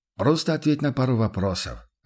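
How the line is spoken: Soft, compassionate interruption. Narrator (Russian): оборвал его Курт так мягко, почти сострадающе

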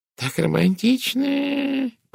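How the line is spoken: Purring. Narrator (Russian): промурлыкала мисс Пирс

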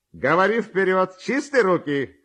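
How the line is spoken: Shouting from afar. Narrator (Russian): кричал еще издали ему Ковалев

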